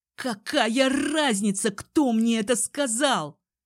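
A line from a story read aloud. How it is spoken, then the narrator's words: Hissed. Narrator (Russian): прошипел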